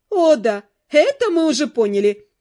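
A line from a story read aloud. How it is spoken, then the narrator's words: Sarcastic exclamation, female. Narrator (Russian): язвительно воскликнула Нэт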